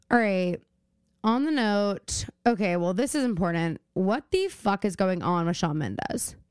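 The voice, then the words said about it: Slightly hoarse voice. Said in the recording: “my voice is a little hoarse,”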